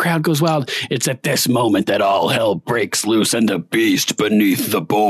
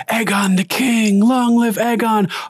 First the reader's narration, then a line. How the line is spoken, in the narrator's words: they're screaming, chanting